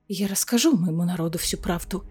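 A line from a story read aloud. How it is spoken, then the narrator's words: Quiet but firm. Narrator (Russian): тихо, но твердо сказала Айлина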